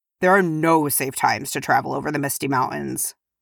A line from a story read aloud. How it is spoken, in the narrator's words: grunted Dwalin